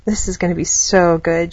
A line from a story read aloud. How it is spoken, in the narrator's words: mumbled